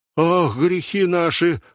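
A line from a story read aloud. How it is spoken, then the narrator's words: Exclamation. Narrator (Russian): воскликнула Мариторнес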